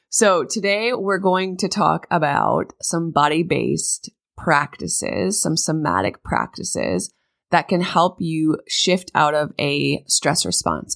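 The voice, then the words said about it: Sick-sounding voice. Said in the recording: “you guys can probably tell in my voice, I'm recovering also”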